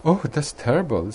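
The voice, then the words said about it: Very concerned voice. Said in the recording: “in a very concerned voice.”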